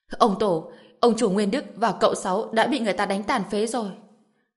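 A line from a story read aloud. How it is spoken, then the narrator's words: Sobbing shout. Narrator (Vietnamese): một tên thuộc hạ khóc không ra tiếng hét lên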